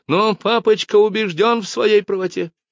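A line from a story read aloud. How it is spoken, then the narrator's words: Hysterical shriek. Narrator (Russian): взвизгнула она, потеряв над собой контроль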